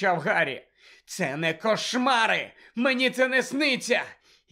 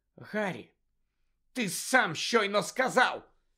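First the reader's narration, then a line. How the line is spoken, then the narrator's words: Hissing. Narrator (Ukrainian): зашипіла Герміона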